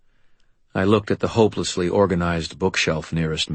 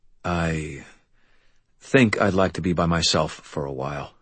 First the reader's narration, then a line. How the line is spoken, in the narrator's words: I said